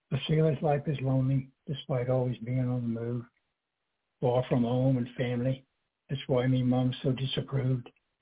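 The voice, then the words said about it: Amateur Cockney accent. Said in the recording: “I tried to read it with a Cockney accent, which I'm not very good at”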